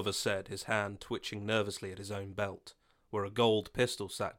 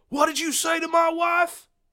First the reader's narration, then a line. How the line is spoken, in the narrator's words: John shouted